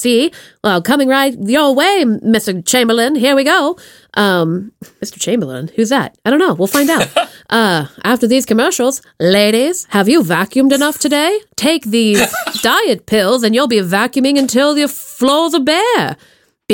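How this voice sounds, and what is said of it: Accurate put-on transatlantic accent. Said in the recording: “They were all talking in this transatlantic accent ... I love pretending to have that accent ... Oh, you are so good. That is painfully accurate.”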